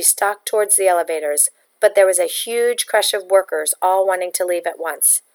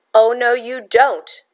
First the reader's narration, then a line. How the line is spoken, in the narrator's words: a man said angrily